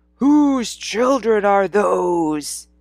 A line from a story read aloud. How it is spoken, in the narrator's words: he bellowed